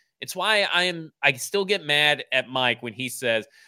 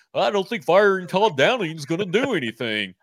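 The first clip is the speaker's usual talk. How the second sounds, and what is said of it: Impression of Mike Herndon. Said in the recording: “That's a great Mike impression”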